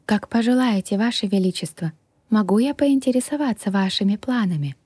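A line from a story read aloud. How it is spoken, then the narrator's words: Sigh. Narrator (Russian): Я вновь вздохнула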